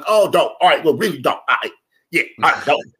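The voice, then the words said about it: Imitated hood street accent. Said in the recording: “he's just kind of hood, dude. Like, that's the fucking accent.”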